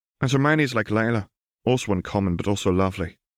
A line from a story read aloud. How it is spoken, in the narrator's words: replied Lila